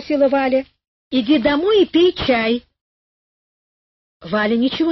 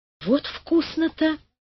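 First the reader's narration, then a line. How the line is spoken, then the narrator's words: Whisper. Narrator (Russian): прошептала Валя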